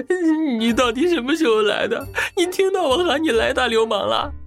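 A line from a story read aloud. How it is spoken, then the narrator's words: Crying. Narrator (Chinese): 瓜二真人哭道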